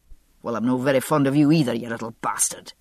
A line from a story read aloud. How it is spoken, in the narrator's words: Jamie snapped